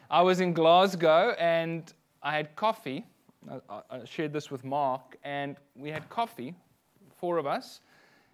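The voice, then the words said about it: South African accent. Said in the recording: “my accent ... he's a foreigner ... you can hear my accent's not exactly the same ... that's rude in South Africa”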